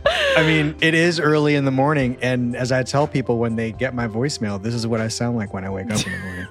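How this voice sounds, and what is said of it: Unusually low-register voice. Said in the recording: “You're using your weird voice that you also use for your voicemail and with servers at restaurants. It's super weird. You just like drop a register.”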